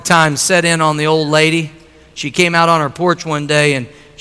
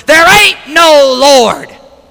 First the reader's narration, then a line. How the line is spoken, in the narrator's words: he'd holler back from his porch